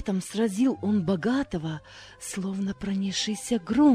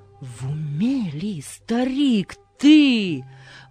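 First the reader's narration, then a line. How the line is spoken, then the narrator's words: Passerby exclaiming. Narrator (Russian): воскликнул прохожий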